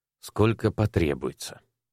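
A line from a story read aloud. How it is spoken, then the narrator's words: Soft-voiced reply. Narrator (Russian): мягким голосом ответил Александр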